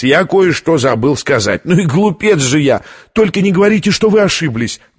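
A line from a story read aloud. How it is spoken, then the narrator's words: Pleading. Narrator (Russian): взмолилась Витория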